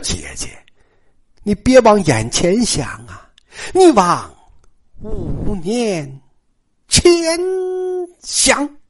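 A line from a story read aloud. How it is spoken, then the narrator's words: Sighing. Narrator (Chinese): 尤三姐叹了一口气呀，说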